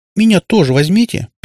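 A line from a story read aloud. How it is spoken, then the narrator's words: Squeak. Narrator (Russian): пискнула Наташка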